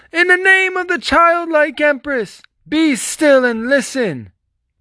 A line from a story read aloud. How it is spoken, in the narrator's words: shouted at the top of his lungs